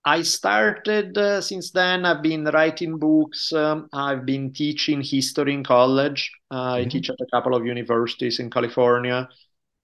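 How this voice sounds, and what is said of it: Italian accent. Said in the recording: “I grew up in Italy, as probably my accent gives away ... my accent never goes away”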